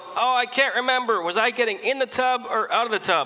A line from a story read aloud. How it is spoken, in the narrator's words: the 96-year-old, she yelled out